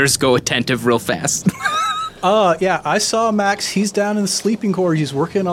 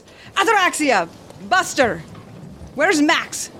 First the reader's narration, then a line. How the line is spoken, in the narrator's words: She shouts down to him